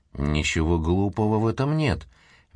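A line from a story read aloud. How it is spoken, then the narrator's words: Said softly. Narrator (Russian): мягко произнес Куайрос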